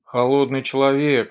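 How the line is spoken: Exclaiming. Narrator (Russian): воскликнул Кистер

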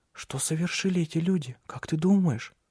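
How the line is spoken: Whispered. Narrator (Russian): прошептал Лив

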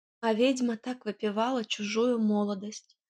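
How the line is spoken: Sad. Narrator (Russian): печально заключила Фрося

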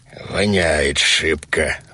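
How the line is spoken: Werewolf grumbling. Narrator (Russian): ворчал Вервольф

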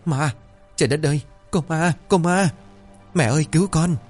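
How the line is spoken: Terrified screaming. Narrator (Vietnamese): miệng cứng nhắc rồi hét ầm lên

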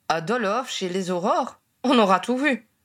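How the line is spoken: Disapproving voice. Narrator (French): conclut-il d'une voix désapprobatrice

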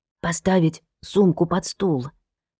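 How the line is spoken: Whispered clarification. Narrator (Russian): уточнила Инна шепотом

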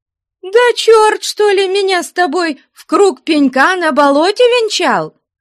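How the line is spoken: Shouting woman. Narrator (Russian): закричала Мавра

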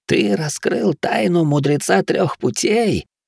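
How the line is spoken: Hissed into ear. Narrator (Russian): прошипел мне в ухо Хироши

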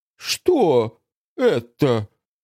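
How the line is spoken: Breathy, less furious. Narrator (Russian): выдохнула Фанни уже не так яростно

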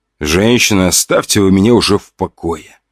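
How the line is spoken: Moan. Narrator (Russian): простонал

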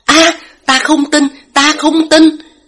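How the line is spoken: Panicked loud shout. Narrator (Vietnamese): Lam Cảnh Nghi trực tiếp mất bình tĩnh, … hét to

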